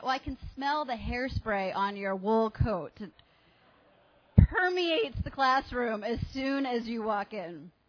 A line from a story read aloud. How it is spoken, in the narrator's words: laughed and she said